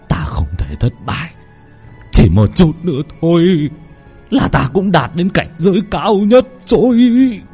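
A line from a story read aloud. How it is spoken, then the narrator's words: Trembling old voice. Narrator (Vietnamese): Lão thầy Tà run rẩy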